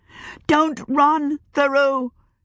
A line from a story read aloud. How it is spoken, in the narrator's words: cried